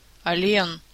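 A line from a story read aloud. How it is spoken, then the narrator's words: Irritated interruption. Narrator (Russian): раздраженно перебила его Морриган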